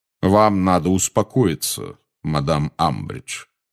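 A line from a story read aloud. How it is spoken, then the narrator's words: Calm resonant voice. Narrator (Russian): сказал Кингсли спокойным звучным голосом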